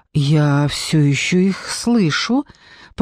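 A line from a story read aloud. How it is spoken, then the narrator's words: Muttered, relieved and puzzled. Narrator (Russian): пробормотал Хендерсон, в голосе которого слышалось облегчение вместе с недоумением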